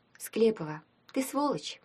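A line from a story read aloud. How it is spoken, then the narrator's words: Sad. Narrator (Russian): произнесла Таня грустно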